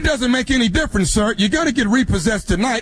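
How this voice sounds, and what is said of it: Screaming over the phone. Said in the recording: “stop screaming at me over this phone”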